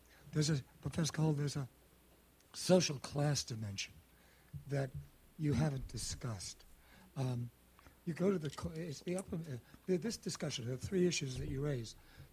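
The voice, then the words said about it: Troubled voice, slow careful speech. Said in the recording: “I apologize for my voice, but I'll speak slowly and I'll enunciate clearly.”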